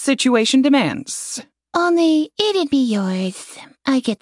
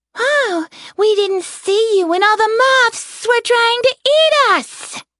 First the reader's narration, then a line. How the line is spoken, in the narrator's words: Celis shouted at Embria's back